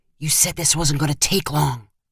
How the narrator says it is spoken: whispered

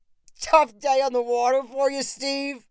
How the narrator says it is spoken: called with a chuckle

